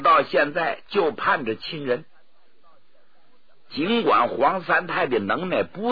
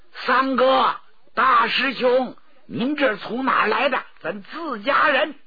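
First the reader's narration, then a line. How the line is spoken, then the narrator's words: Shouting. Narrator (Chinese): 有人就喊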